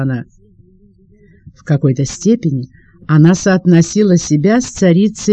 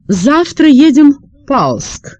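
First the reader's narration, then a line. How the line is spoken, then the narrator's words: Loud, agitated exclamation. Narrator (Russian): у нее вздымалась грудь, и она громко восклицала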